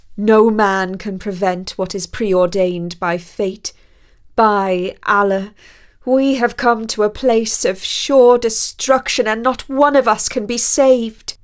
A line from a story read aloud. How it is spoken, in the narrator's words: the captain wailed even louder, saying